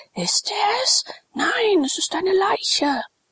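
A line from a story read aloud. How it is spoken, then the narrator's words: Crowd shouting. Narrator (German): schrie der Pöbel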